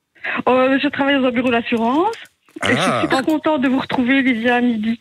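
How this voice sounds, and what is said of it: Slight regional French accent. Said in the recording (French): “T'as entendu un petit accent d'ailleurs.”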